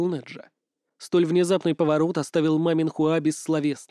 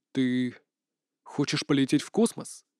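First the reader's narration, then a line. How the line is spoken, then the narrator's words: Barely audible, to himself. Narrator (Russian): спросил чуть слышно, словно сам себя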